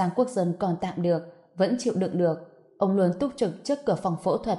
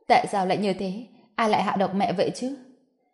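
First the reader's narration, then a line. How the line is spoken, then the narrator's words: Anxious tearful muttering. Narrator (Vietnamese): Giang Uyển là người lo lắng nhất, khóe mắt đỏ hoe, không ngừng lẩm bẩm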